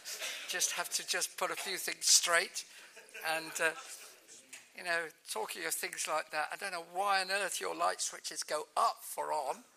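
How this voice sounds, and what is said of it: Non-American, likely British accent. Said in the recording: “If you can't understand my accent, that's your fault, not mine ... we put stuff in the boot, not in the trunk”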